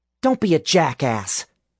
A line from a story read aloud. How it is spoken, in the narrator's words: Alice snapped